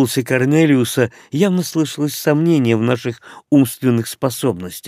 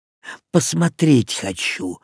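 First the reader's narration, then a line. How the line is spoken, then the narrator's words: Muttered. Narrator (Russian): буркнул я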